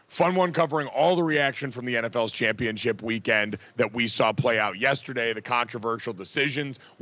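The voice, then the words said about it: Strained, blown-out voice. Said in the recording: “despite how I sound ... my voice sounds like this ... I got way too excited and I kind of blew out the air on this thing”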